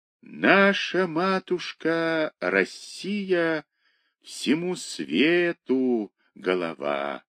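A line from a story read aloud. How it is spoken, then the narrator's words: Sudden wild singing, choking off. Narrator (Russian): запел вдруг диким голосом Кирюха, поперхнулся и умолк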